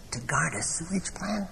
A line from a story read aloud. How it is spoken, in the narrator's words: Dash laughed softly